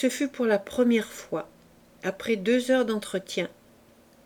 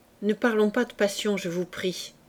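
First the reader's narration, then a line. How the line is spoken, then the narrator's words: Curt, dry tone. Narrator (French): dit-elle d'un ton sec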